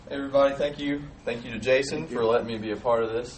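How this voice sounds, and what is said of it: Slow Southern US accent. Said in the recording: “If you can't really understand me, it's because I'm from South Georgia ... we don't talk any slower ... I'm not quite sure it gets much slower than this ... we don't have a bad Southern accent”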